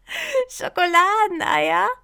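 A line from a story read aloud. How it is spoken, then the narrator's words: Laughing. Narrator (German): musste lachen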